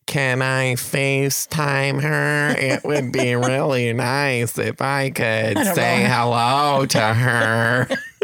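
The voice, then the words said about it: Good impression of a woman. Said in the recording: “That's a good impression.”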